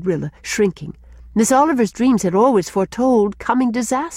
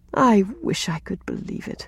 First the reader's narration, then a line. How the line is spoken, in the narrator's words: sighed Rilla